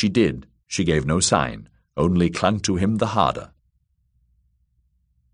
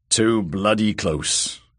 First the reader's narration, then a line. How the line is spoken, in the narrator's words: grumbled old Tattersalt